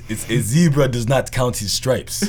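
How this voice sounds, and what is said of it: Put-on African dad accent. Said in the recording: “put on my African dad voice”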